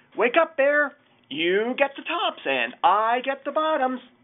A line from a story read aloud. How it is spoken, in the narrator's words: Hare called out